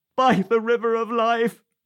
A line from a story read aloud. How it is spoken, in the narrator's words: answered our tree, choked with tears